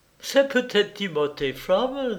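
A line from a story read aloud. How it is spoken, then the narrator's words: Tentative, laughing. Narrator (French): dit hasarda Gerdem en riant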